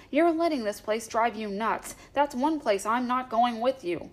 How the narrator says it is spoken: Roy said as he told his brother angrily, breaking the silence

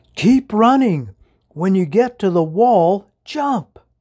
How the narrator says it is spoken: shouted the mouse

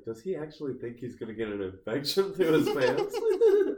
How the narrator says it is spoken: Casey's like laughing

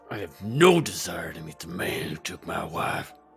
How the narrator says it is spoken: through gritted teeth and seething anger, Zack said

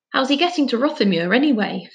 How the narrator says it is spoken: Finn said urgently

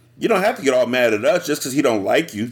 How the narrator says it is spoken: Judy said

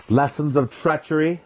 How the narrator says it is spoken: spat, too angry to care about the consequences

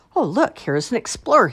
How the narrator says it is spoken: he exclaimed to himself

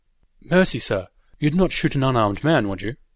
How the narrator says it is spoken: he cried

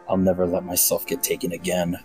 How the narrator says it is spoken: under my breath

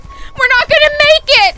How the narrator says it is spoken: I shouted

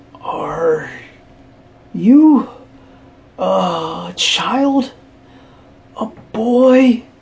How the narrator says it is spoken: the thing said between breaths

